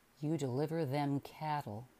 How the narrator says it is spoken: he said grimly

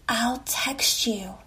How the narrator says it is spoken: he whispered

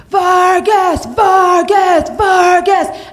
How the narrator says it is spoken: I hear them scream

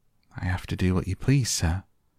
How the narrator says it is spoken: Martha faltered, turning quite red

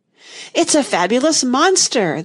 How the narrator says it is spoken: the unicorn cried out

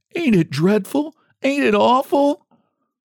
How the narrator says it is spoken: sobbed

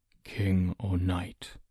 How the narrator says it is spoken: Ector murmured

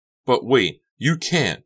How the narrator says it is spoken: Becca cried

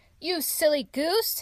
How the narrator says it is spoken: he howled

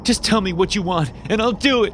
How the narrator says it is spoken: said, nearly screaming

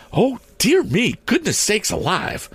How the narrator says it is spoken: cried Mrs

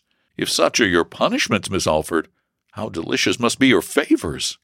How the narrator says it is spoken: he eagerly replied, and then added, so ardently

